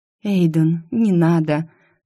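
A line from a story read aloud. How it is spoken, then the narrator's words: Weak breathy exhale. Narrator (Russian): Слабо выдохнула Сильвия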